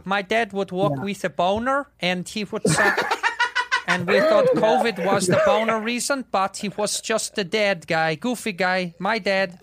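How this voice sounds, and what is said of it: Imitated Dutch accent. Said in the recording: “Is that a good accent? ... It was dead on. ... or in Dutch”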